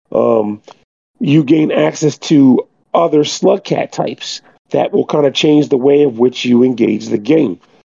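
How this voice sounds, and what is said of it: Scratchy hoarse sick voice. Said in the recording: “pardon my voice ... I've been sick, so I got a little scroggly throat”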